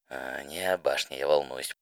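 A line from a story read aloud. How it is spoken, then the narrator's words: Muttered. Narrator (Russian): пробормотала Rainbow Dash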